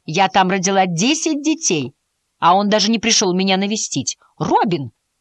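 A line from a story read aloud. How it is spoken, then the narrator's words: Sharp call. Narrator (Russian): резко окликнула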